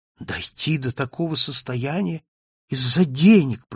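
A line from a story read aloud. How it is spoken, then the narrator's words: Moaning. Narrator (Russian): простонала Софи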